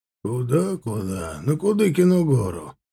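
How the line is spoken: Snorted. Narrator (Russian): хмыкнул тот

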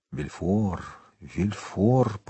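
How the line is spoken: Muttered. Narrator (Russian): пробормотал Монте-Кристо

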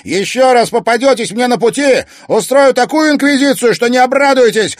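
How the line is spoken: Barking after them. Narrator (Russian): рявкнул Зверев им вдогонку

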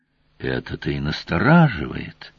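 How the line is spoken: Sighing senior guard. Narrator (Russian): вздохнул старший охранитель

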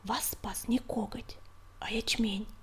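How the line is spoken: Whispered. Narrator (Russian): прошептал Огонек

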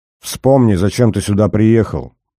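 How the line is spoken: Sharp command. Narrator (Russian): довольно резко приказала она

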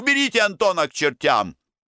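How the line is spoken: Feverish shouting. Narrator (Russian): кто-то закричал горячкой

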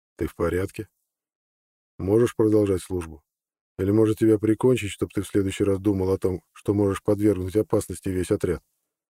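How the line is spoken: Quiet question. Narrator (Russian): Юрагор тихо спросил

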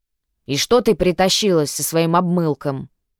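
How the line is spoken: Grumbling old man. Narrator (Russian): заворчал старик

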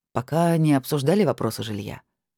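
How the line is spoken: Calm reply. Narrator (Russian): спокойно ответил Майкл

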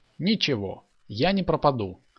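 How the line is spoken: Cheerful reply. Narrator (Russian): бодро ответил

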